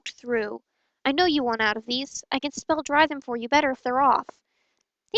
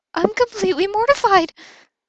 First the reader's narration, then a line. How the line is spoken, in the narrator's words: Albus squeaked out